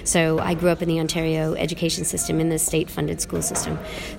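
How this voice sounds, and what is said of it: Canadian accent. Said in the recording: “I'm Canadian by accent.”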